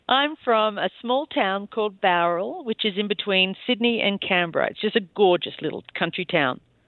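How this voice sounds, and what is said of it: Australian accent. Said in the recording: “you have a gorgeous accent ... I'm from Australia.”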